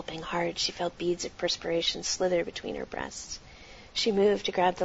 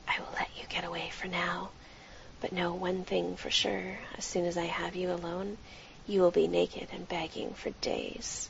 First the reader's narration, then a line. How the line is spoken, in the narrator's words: he bent to her ear and whispered